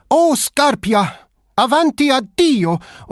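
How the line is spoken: Screaming. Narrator (German): schrie

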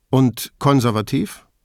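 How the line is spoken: Almost mocking laughter. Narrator (German): Der Conte ließ beinahe so etwas wie ein Hohnlachen hören

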